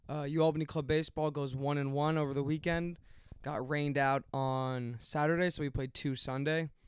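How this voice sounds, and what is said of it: Hoarse, strained voice. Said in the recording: “my voice is gone. I've been screaming all weekend.”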